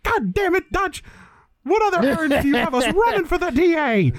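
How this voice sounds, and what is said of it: CCH Pounder impression. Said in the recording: “do CCH Pounder ... It's the one woman from the Shield ... he just pulls out this fucking impression ... so fucking dead on to the actual, like, the CCH Pounder”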